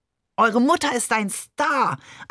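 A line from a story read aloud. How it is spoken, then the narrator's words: Overjoyed shout. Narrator (German): schrie Barbe überglücklich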